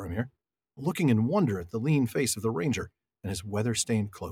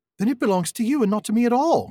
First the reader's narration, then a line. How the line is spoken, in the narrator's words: cried Frodo in amazement